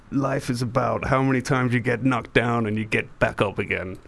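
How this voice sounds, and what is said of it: Imitates another person's voice. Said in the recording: “terrible Stallone impression”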